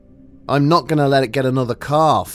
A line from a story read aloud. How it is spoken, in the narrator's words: he growled